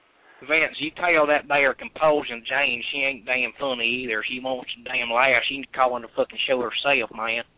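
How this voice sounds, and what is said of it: Exaggerated Southern US accent. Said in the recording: “That is an immaculate accent, man. ... Is that like Mississippi? ... I call Alabama.”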